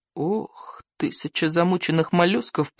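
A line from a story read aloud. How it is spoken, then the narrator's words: Groan. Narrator (Russian): простонал Икинг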